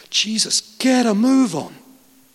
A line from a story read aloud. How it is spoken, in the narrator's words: They've exclaimed